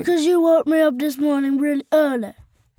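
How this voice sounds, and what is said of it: Sleepy character voice. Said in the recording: “I didn't know your voice was so sleepy.”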